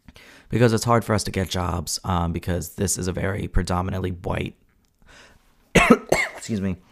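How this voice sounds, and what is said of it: Raspy voice. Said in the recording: “why is my voice getting raspy?”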